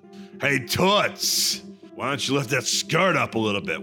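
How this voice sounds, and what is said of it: Gruff Jersey construction worker voice. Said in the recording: “a fucking Jersey construction worker? ... like a McGruff cop kind of thing ... construction worker who harasses women in, like Manhattan, or probably more Jersey”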